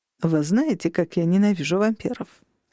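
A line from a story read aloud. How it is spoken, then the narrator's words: Polite social tone. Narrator (Russian): спросил он светским тоном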